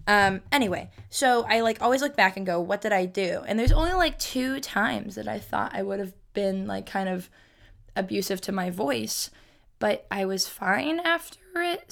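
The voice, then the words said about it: Scratchy, strained voice. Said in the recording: “My voice is like, eh, I feel like it sounds scratchy, but it feels scratchy ... like I have to clear my throat”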